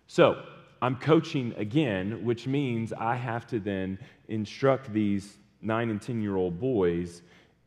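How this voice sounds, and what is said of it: Weak, strained voice. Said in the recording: “you can yell, which may be directly related to why my voice is weak today”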